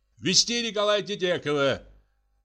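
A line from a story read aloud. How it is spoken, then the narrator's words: Shout. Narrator (Russian): крикнул следователь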